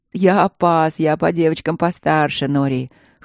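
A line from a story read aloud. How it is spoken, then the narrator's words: Short laugh. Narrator (Russian): хохотнул Чет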